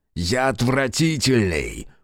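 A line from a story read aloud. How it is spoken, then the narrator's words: Hiss. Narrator (Russian): Прошипел Фергус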